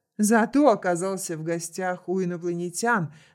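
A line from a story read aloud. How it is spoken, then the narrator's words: Laughing. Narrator (Russian): засмеялся пятый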